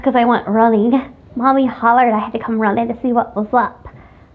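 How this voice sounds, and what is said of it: Out of breath. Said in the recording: “I sound like I'm out of breath”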